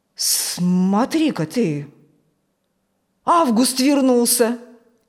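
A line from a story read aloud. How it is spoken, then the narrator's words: Surprised exclamation. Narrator (Russian): удивленно воскликнул Фокт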